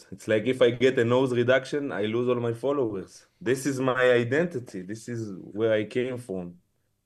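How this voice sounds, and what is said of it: Strong Israeli accent. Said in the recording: “your accent is so strong, like you're so identifiably Israeli”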